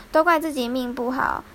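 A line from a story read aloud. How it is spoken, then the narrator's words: Reluctant sigh. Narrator (Chinese): 好不容易他才叹了一口气说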